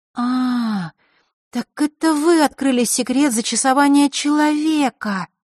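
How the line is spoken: Drawn-out drawl. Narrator (Russian): протянула Василиса

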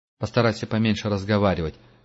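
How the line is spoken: Plain. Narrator (Russian): сказал Герман

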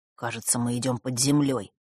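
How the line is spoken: Whisper. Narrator (Russian): шепнул Василисе Фэш

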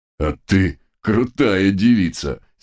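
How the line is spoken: Respectful drawl. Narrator (Russian): с невольным уважением протянул второй дог

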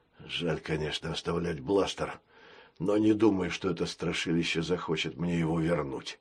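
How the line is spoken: Muttering. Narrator (Russian): пробормотал пират

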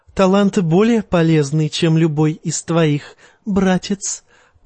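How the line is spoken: Purring. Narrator (Russian): промурлыкала Серсея

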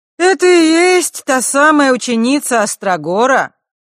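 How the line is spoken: Loud, as if to herself. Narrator (Russian): громко спросила она, словно бы у самой себя

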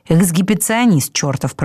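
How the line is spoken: Grumbling. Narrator (Russian): проворчал Сфинкс

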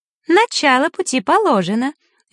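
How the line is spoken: Cheerful voice. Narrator (Russian): веселым голосом произнесла Захара

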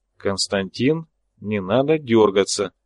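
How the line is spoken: Very quiet. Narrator (Russian): очень тихо сказал я

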